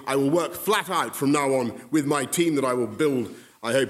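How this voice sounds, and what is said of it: Boisterous British accent. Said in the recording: “the most boisterous I've ever heard with a British accent”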